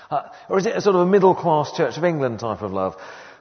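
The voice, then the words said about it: Put-on posh English accent. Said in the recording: “I'm trying to do a posh accent, but I don't need to because I'll probably sound posh anyway”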